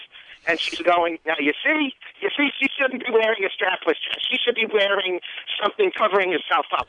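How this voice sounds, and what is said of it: Good impression of his mother. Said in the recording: “you do a good impression of your mom.”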